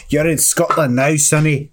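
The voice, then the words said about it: Put-on Scottish accent. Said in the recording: “if they talk like that, we're good... That's not how they were talking... I don't know how Scottish accents work.”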